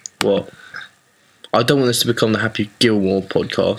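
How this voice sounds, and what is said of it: Usual voice. Nothing is said of it.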